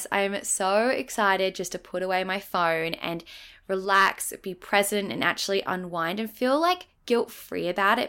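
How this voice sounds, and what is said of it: Croaky, sleepy-sounding voice. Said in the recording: “if my voice sounds a little bit croaky right now. I feel like I have like sleepy voice because it's 8 a.m. right now”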